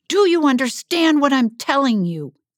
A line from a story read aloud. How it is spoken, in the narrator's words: he bellowed